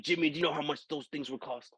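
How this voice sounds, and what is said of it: Imitates another person's voice. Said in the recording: “my Nick impression”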